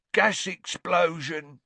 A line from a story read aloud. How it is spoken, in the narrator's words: grunted Ernie